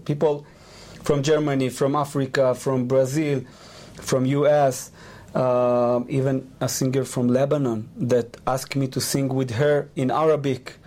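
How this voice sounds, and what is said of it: Non-native accent in English. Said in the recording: “you can hear my accent, but think about 3 years ago, it was much even worse than now. Like, my English was really bad.”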